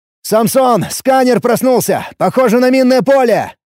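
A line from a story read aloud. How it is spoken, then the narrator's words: Shout. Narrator (Russian): крикнул я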